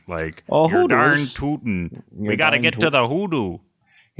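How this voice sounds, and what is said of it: Put-on Fargo Minnesota accent. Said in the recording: “the Fargo accent.”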